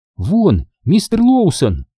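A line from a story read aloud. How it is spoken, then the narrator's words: Exclaiming. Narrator (Russian): воскликнула Анна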